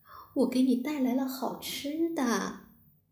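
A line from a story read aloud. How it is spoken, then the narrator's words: Soft, gentle. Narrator (Chinese): 小仙女……她轻声的说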